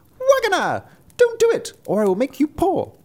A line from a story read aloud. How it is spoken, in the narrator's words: So it cried